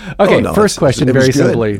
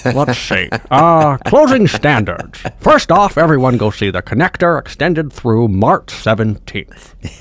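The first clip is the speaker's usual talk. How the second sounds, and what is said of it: Imitates another person's voice. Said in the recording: “in my Walter Cronkite voice ... I'll stop doing the voice”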